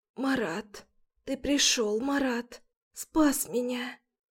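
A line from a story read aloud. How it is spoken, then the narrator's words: Hoarse, barely audible voice. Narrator (Russian): Голос охрипший, слова едва различимы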